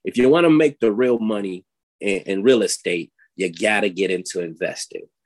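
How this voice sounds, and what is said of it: Old Brooklyn New York accent. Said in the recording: “in his old Brooklyn, New York accent”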